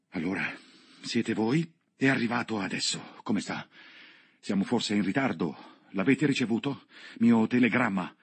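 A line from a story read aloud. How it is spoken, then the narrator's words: Breathless, panting questions. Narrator (Italian): mi ha domandato, ansimando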